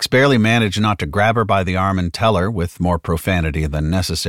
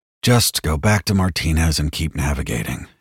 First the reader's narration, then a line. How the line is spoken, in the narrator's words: Hicks said wearily